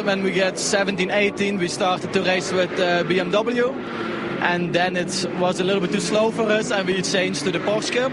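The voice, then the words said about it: Strong Flemish Belgian accent, throaty. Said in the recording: “that is an epic accent. That is fully Dutch-Belgian ... With the kind of the rolling of the back of the throat that only the Dutch and the Belgian Flemish can do ... Flemish”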